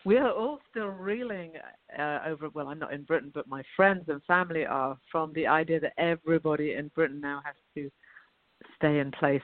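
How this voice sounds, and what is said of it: British accent. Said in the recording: “I don't have a Southern accent. I have a British accent”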